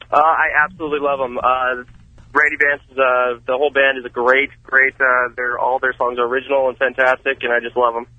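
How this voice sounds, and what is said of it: Speaks with a noticeable accent. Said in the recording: “didn't you see hear his accent?”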